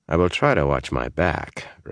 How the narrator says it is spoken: Rand said dryly

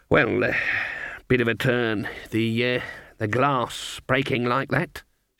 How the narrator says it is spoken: mumbled

